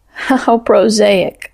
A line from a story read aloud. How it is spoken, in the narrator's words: choked out, and choked upon the words